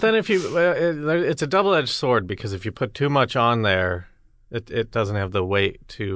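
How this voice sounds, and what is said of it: Usual voice. Nothing is said of it.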